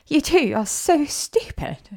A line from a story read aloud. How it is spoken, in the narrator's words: she cried